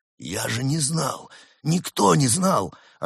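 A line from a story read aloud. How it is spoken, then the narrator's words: Flustered excuse. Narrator (Russian): растерянно оправдывался амбразур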